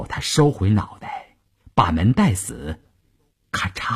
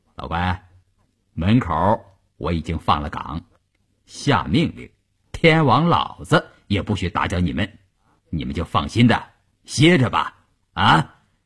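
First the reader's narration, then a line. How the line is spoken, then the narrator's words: Cheerful, grinning. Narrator (Chinese): 张如平说完笑嘻嘻地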